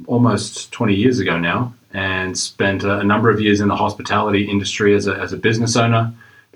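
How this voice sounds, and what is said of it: Australian accent. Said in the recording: “have an, have an accent that listeners uh, may or may not have picked up on. I uh, originally am from Australia”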